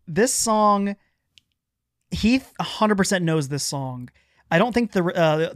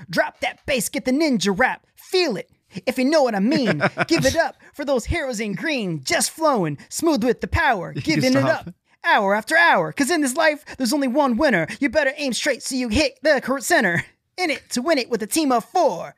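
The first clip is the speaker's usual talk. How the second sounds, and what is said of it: Rap impression of a rapper. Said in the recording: “I'm going to try my best to do a good impression of this guy”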